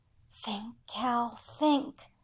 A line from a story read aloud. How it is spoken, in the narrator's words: I whispered to myself